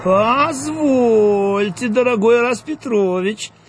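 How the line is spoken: Cheeky drawl. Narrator (Russian): развязно протянула, то есть протянул Дуэнья

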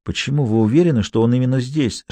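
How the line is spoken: Whisper. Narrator (Russian): шепнул я Фаулеру

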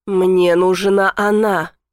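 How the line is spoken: Low growling voice. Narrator (Russian): рычащим низким голосом произносит Захар

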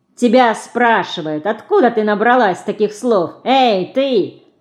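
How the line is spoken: Boy's mocking shout. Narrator (Russian): насмешливо крикнул мальчик

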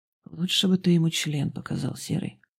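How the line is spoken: Gruff mutter. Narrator (Russian): буркнул Волков

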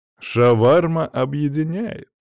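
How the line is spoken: Giggling. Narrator (Russian): хихикнул

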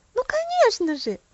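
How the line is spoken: Excited exclamation. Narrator (Russian): воскликнула Софи

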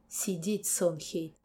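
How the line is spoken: Hoarse angry growl. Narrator (Russian): Хриплый рык из глубины груди и злое

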